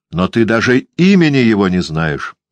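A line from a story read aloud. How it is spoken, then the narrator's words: Sharp, young man. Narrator (Russian): сказал резко юноша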